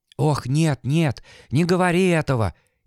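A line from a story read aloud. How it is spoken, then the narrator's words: Frightened whisper. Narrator (Russian): испуганно зашептала Олеся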